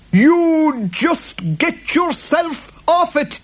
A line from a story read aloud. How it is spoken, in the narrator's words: yelled the boggart